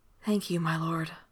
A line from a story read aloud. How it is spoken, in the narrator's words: she breathed